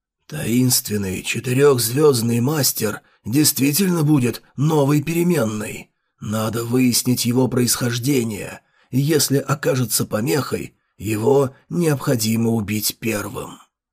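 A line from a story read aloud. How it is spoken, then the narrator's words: Hoarse voice, muffled face. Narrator (Russian): Мистический человек, целиком завернутый в белое, даже с покрытым белой тканью лицом, хриплым голосом сказал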